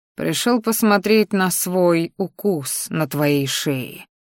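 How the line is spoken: Growled. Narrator (Russian): рыкнул я

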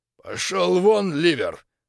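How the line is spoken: Hoarse wheeze. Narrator (Russian): захрипел гастольер

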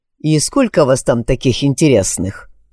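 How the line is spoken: Snorting. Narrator (Russian): хмыкнул я

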